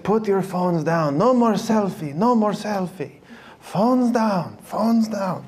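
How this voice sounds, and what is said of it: Imitates another person's accented voice. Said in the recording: “That's my bad Pope Francis accent.”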